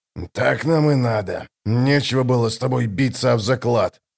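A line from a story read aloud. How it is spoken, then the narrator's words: Grumbling. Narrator (Russian): проворчал Драсти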